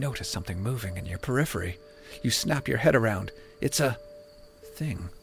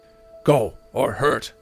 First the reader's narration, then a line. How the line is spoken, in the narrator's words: says in their language, but in a deep, commanding voice